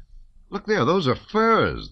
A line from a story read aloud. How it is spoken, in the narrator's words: they exclaimed